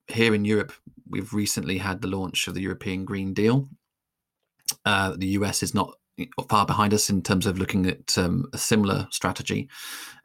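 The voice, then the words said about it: European accent. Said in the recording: “I think you can probably tell from my accent that I tend to focus more on the European picture.”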